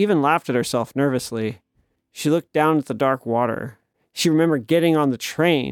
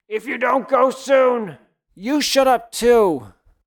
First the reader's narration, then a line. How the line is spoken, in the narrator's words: yelled